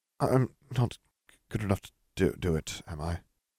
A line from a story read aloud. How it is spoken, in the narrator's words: Nev muttered